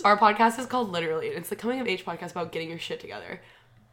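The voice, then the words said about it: Very fast speech. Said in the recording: “You just said that so fast.”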